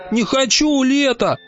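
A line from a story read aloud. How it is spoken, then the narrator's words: Whiny wailing. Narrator (Russian): капризно завопил зайчик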